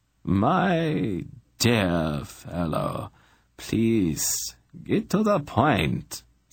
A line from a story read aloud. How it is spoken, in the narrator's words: Zadi said, rubbing his scalp wearily